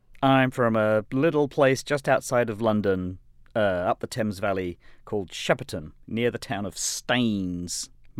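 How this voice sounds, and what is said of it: Mixed London and BBC English accent. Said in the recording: “My accent is some horrible mishmash of kind of blue-collar London with upper-class BBC, Cambridge, slash living in Boston, New England mashup.”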